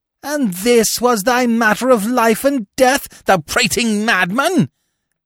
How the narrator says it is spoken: he thundered

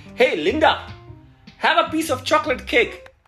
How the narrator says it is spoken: she called out

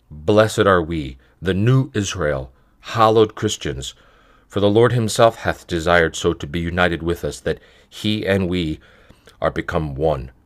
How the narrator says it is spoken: we lift our voices and exclaim aloud

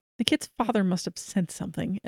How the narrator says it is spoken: Kay mumbled under her breath

